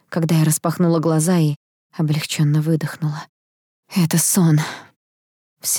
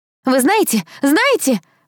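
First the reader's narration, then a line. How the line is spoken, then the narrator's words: Shout. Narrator (Russian): выкрикнула она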